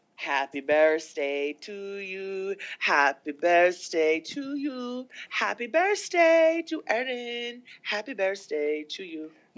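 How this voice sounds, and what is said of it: Put-on Japanese accent, singing. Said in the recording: “I'm horrible at accents, but that was supposed to be my little Japanese grandmother ... one of my favorite impressions of yours”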